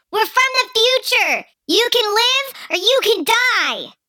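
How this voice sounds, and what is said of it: Tiny little character voice. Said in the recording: “in my tiny little voice”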